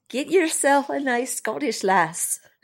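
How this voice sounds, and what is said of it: Poor attempted Scottish accent. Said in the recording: “I really need to work on my accent. It's terrible.”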